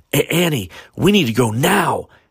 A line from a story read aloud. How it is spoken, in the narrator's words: Eric shouted